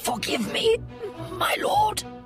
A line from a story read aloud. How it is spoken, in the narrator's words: the guard gasped